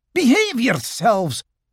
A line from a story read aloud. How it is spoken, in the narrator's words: Rabbit cried